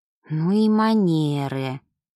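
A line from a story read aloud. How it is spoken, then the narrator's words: Sigh. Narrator (Russian): вздохнула Ева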